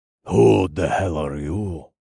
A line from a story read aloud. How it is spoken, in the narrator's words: Incubus snarled in Russian